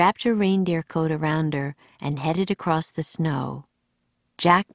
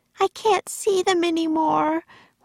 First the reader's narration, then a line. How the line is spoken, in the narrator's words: wailed Annie